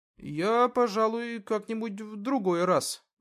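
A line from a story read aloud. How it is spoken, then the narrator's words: Uncertain mumble. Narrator (Russian): неуверенно пробормотал Артем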